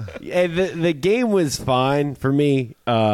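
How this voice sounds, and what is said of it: Usual voice. Nothing is said of it.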